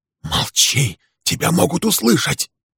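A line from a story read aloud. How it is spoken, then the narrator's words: Hissed. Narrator (Russian): прошипел он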